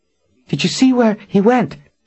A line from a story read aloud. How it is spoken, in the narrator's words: She asked, gasping for breath